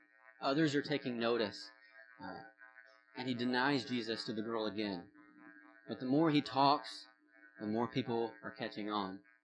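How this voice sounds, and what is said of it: Southern American accent. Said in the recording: “I know you can hear my southern accent”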